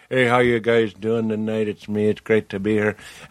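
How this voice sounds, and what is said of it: Cartoonish put-on Native American accent. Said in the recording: “I do kind of like a very specific Native American. That's not. It's that's like, not anybody. That's like a cartoon ... he does like a stand-up comedian that's like ... What I did is an impression of his impression”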